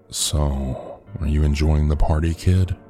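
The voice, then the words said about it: Deep male character voice. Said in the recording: “the guy had asked in a deep voice.”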